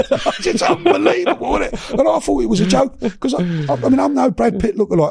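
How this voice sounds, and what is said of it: English accent. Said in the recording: “the English accent ... Englishness”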